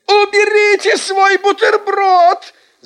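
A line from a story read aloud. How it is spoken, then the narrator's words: Teacher shouting. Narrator (Russian): закричала наша учительница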